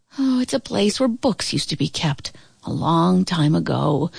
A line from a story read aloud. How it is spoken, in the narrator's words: answered wistfully